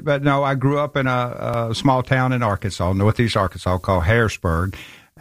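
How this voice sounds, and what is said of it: Southern American accent. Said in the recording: “people are going to love your accent as soon as you begin to speak ... I'm from Memphis, Tennessee”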